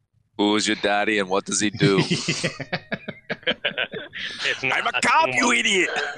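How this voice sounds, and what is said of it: Imitates another person's voice. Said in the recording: “the Arnold impersonations”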